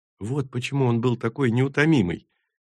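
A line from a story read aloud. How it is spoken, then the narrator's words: Knowing whisper. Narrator (Russian): понимающе прошептала Тури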